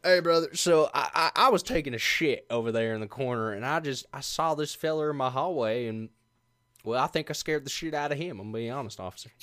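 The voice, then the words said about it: Put-on Western accent. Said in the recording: “talk in a Western accent like that”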